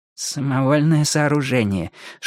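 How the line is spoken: Whispered prompt. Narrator (Russian): шепотом подсказал мэр Налимов

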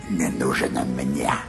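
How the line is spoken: Creaky voice. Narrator (Russian): проскрипел Ральф

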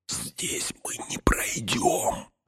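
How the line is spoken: Whispered. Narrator (Russian): шепнул Фродо

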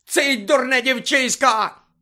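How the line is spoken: Sudden frenzied shout. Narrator (Ukrainian): закричав раптом Снейп, мов божевільний

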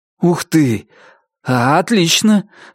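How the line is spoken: Calm, pleased exclamation. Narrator (Russian): воскликнул Пит, успокоившийся и довольный

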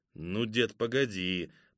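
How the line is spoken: Grumbling reply. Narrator (Russian): проворчал в ответ Кузьма

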